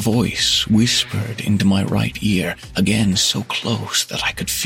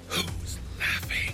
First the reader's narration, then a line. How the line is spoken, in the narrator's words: Right behind my left ear, close enough to feel the hot breath, a male voice whispered